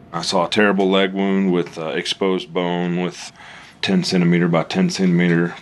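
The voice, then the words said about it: Slow Texan drawl. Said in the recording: “The slow drawl reflects his roots in Paris, Texas”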